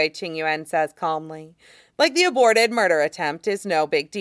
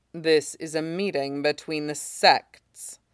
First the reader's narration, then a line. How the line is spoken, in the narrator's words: Shen Qingqiu says coldly